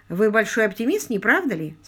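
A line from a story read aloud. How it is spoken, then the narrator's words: Plain. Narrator (Russian): спросил он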